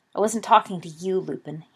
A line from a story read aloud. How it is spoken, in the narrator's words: spat